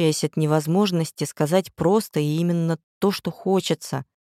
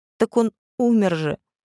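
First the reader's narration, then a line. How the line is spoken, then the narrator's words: Sobbing. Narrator (Russian): всхлипнула тогда Вера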